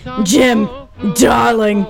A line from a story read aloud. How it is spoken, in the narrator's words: she cried